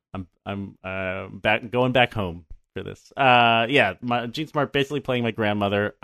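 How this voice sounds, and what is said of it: Philadelphia accent. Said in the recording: “I might have more of a Philly accent than I thought I did. ... Your version of it is certainly better than ours. You've got that O down.”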